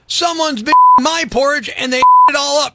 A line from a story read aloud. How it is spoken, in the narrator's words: cried the baby bear